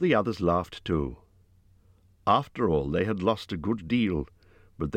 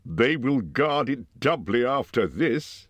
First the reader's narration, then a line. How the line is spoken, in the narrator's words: he laughed